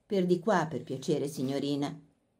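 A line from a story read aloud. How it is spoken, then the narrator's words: Oily voice. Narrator (Italian): disse con voce untuosa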